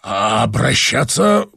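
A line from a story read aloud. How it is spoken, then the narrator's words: Strangled voice. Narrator (Russian): произнес он сдавленным голосом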